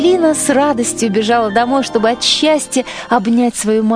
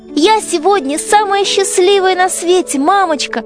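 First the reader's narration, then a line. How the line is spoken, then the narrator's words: Exclaimed. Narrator (Russian): воскликнула Ангелина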